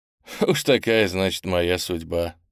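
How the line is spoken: Laughing. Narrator (Russian): засмеялся я

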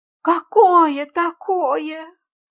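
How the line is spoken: Moaned. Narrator (Russian): простонала мисс Фридлендер

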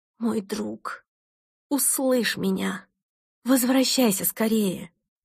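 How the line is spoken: Desperate, uncontrolled exclamation. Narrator (Russian): Перестав контролировать себя, я в отчаянии воскликнула

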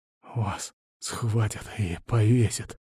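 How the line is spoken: Quiet rasp, just conscious. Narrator (Russian): тихо прохрипел Ланс, придя в сознание

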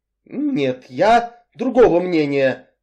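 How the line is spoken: Grim and firm. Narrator (Russian): мрачно и твердо заявил мистер Самсон

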